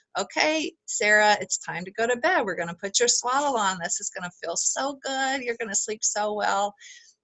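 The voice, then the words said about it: Sweet soothing mom voice. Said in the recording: “mom voice ... because you're just so sweet”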